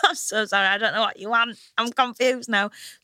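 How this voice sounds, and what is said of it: Northern English accent. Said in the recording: “that's my accent... So it's my normal accent... what we want is like an authentically northern accent. And I'm like, that's what I'm giving you.”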